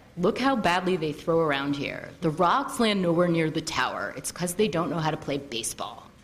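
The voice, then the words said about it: Poor imitation of another person's voice. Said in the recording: “that was a very bad impression of my brother”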